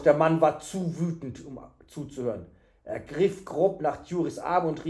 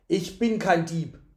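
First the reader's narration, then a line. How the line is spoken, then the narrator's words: Calling out. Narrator (German): rief er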